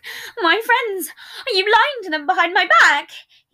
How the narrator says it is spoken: He cried out as tears formed in his eyes

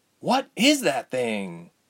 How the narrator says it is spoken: gasped

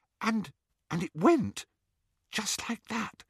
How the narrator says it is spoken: she whispered

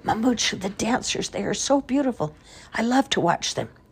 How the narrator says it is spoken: she brought her mother's head close to her own and whispered

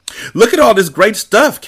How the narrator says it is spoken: Karen cried

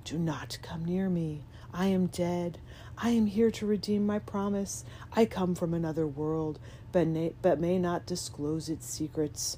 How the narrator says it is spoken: replied in a kind of whisper, but very audibly

